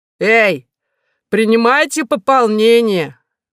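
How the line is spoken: Nurse shouting. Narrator (Russian): крикнула медсестра

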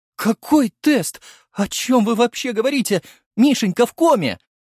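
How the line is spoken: Sobbing blurt. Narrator (Russian): сквозь рыдание выпалила она

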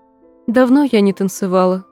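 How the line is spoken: Sad remark. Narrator (Russian): грустно заметила она

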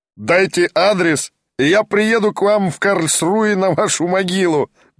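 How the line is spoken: Uproarious laughter. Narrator (Russian): безмерно расхохотался немец

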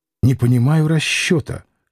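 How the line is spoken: Whisper. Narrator (Russian): шептал

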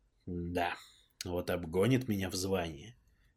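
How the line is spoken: Low mutter to himself. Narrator (Russian): в полголоса сам себе под нос пробормотал я

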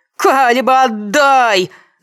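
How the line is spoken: Screaming at full force. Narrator (Russian): завопила она, что есть силы

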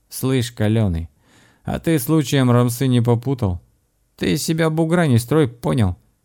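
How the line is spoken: Rough reply. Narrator (Russian): грубо ответил чужак

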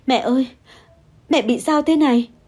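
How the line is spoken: Sobbing. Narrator (Vietnamese): Tôi bật khóc nức nở

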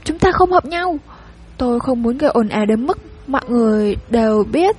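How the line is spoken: Stammering woman explaining. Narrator (Vietnamese): Cô ấp úng phân bua

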